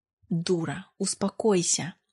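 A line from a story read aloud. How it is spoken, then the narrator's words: Man's hiss. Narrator (Russian): прошипел мужчина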